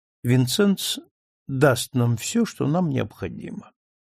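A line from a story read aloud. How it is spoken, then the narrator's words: Calm. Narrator (Russian): сказала спокойно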